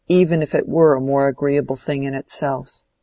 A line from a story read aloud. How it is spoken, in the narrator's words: said Lydgate, speaking bitterly